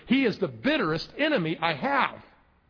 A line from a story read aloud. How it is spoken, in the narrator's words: exclaimed the preacher